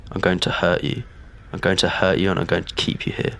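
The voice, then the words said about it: Slightly deeper menacing voice. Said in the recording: “His voice was slightly deeper than my own.”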